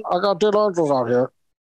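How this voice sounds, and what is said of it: Tinny call-box voice impression. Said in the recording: “How was that impression? Did I nail that one? ... I really sounded like you're on a call box.”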